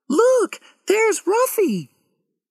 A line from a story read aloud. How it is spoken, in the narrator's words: Suddenly, Lauren cried